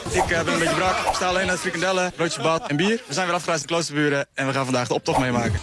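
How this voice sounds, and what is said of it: Slight rural Dutch border-region accent. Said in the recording (Dutch): “Het is een account voor plattelandsjongeren van Noord-Groningen, zoals ze zelf zeggen, tot aan de Achterhoek. Dus ze noemen het de grensregio daar, dat hoor je ook een beetje aan het accent al.”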